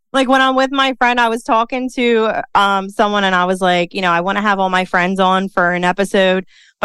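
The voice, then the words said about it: Philadelphia accent. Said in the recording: “we're both from Philly. I love our accent ... it makes mine worse. Like, it just comes out”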